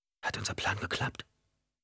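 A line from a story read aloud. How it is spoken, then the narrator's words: Whisper. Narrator (German): flüsterte Ghanima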